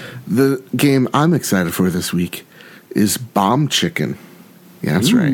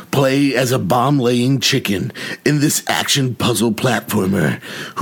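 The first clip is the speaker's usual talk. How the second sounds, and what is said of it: Exaggerated put-on performance voice. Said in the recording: “my awesome voice”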